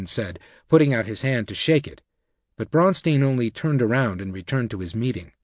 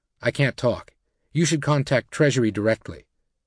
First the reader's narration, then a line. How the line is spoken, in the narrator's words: he said stiffly to Wiseman